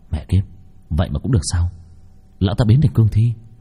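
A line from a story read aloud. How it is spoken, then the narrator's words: Muttered curse. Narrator (Vietnamese): Long Vân lẩm bẩm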